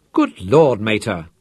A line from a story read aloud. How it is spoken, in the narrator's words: Chasser exclaimed